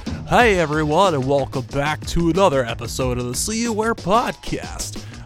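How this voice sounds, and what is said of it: Put-on radio announcer voice. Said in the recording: “I'm gonna stop that radio voice. I don't know how people do that all the time.”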